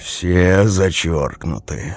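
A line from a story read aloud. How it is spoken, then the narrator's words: Sigh. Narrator (Russian): вздохнул Мороз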